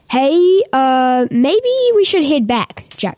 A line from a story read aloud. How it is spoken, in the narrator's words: shouted Jackson with fear in his eyes